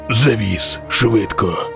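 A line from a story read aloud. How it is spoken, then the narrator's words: Stranger, hoarse rasp. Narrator (Ukrainian): прохрипів незнайомець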